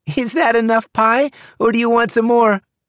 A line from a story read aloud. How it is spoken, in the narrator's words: I shouted upstairs to my sister, Tammy